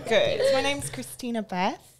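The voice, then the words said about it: Put-on British accent. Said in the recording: “Should I start with a British accent?”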